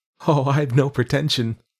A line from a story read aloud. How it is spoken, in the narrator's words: I could laugh